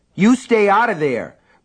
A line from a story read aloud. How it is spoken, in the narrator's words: Brian shouted